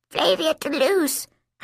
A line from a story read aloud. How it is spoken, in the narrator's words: I gasped